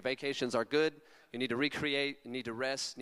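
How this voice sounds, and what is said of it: Californian American accent. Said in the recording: “My like Californian accent”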